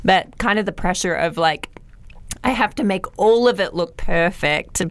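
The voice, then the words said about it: Hoarse, fading voice. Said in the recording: “I'm losing my voice”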